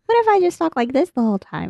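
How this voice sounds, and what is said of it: Ridiculous put-on silly voice. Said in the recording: “That third ridiculous voice you just heard ... I would pitch shift it down just because I hate it.”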